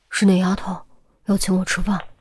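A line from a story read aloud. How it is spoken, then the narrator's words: Quiet. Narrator (Chinese): 小声说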